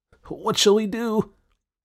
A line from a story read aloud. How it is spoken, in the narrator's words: asked Whisk anxiously, all the mirth and mischief banished from his wee face by this great calamity